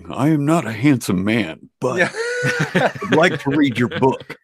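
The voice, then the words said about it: Impression of another man's voice. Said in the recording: “great impression”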